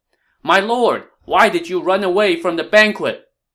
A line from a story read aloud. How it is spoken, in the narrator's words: Cai Mao shouted